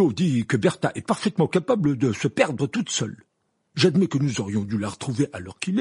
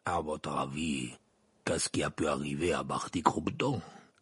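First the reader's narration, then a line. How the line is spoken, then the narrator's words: Gruff growl. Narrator (French): grogna la voix de Maugrey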